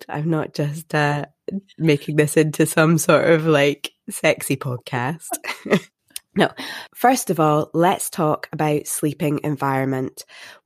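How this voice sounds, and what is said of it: Congested, nasal voice. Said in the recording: “I have a cold.”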